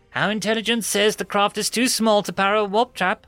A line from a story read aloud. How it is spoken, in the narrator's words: shouted the reptilian lieutenant